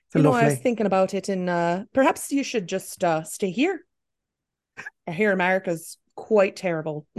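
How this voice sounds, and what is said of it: Put-on Irish accent. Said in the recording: “Lovely Irish accent ... Your Irish is so good.”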